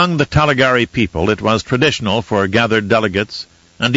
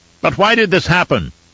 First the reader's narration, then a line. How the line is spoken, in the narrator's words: a man called out